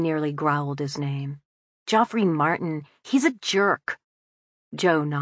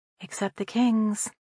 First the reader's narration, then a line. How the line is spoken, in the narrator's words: Meg said under her breath